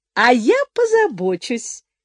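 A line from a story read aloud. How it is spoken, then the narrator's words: Cheerful smiling objection. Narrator (Russian): возразила леди Джен, весело улыбаясь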